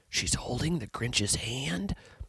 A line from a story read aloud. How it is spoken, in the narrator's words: A shocked whisper